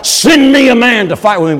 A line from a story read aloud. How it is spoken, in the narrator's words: he was shouting out across that valley